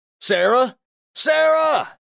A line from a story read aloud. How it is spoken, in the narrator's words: he shouted, his voice cracking